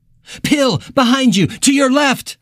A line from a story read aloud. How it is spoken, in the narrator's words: Billy cried